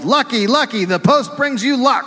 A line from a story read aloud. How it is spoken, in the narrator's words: yelled